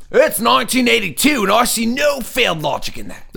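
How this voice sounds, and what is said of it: Shifting put-on accent. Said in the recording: “My accent has changed 3 times as I've said this.”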